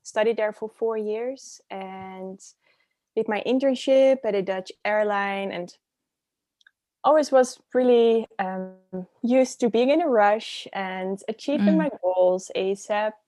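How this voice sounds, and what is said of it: Dutch accent. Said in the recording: “I'm originally from the Netherlands. So that's where my accent is coming from. ... I love the accent.”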